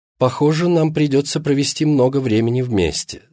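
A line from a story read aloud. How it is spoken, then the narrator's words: Plain. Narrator (Russian): сказала она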